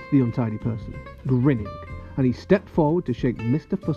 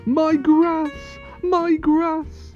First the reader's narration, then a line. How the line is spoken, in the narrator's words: cried Mr